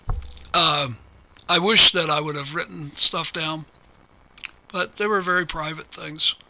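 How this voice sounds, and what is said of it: Strained, fading voice. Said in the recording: “Now I'm losing my voice.”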